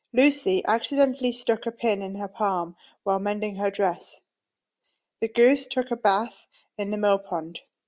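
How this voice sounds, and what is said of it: Nottingham accent with northern features. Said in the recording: “a little further south to Nottingham ... all of these accents have these typically northern features”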